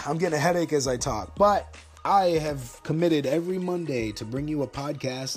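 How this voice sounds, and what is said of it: Tired, strained voice. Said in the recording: “That cough is an indication. I'm starting to lose my voice a little bit more now, and I'm tired of talking.”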